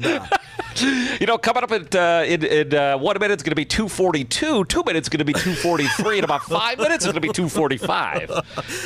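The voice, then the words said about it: Exaggerated old-school radio announcer voice. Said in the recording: “the classic radio announcer voice ... that's how we're going to do the rest of this programming is in puke”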